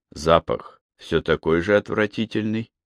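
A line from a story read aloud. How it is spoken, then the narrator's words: Sad question. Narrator (Russian): печально спросил он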